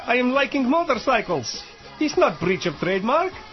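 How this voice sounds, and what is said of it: Exaggerated Yugoslav accent. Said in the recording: “I am not Irish, as you can tell by my ridiculous accent. I am Yugoslav.”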